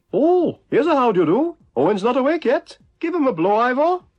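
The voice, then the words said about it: Poor, clichéd put-on Welsh accent. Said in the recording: “almost a Welsh racial stereotype ... It's like Ivor the Engine ... it's a bit cliche ... your Welsh accent is terrible”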